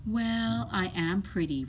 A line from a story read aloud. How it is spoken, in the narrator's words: replied Charlotte